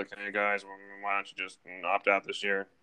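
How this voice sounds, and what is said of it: Imitates another person's voice. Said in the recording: “terrible Belichick impersonation”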